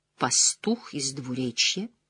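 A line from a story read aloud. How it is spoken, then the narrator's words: Quiet whisper. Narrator (Russian): тихо произнесла, шепот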